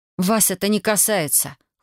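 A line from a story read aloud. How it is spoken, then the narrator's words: Growled in unison. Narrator (Russian): хором рыкнули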